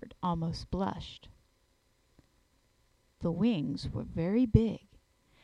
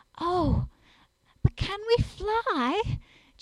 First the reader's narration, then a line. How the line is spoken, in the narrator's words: Jane said, standing anxiously first on one foot and then on the other